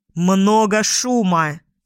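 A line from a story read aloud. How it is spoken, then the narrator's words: Barked shout. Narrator (Russian): Снова гаркнул зрячий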